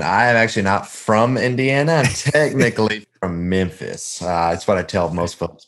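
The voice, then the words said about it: Southern American accent. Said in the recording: “that Southern accent”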